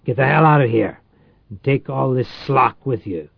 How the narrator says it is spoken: he growled

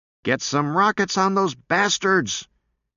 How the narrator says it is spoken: Hillebo yelled to everyone in particular

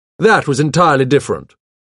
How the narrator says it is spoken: snapped

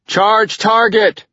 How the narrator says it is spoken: he screamed

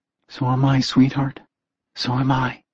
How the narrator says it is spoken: Jesse whispered back, fighting tears

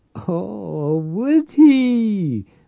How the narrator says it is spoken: Maria cackled delightedly

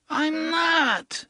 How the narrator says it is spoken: Henry cried back querulously

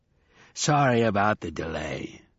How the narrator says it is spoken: said hoarsely

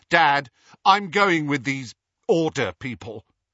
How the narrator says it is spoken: said Dudley in a loud voice

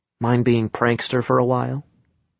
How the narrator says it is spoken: I whispered

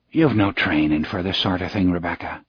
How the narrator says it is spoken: Spencer said softly

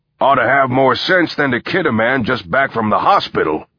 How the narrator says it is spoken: said Brackman gruffly

